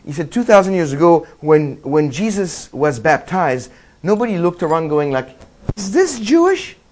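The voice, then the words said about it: Put-on French accent. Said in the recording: “he had this strong Israeli accent, which I cannot reproduce, but I got the French one, so that's close enough”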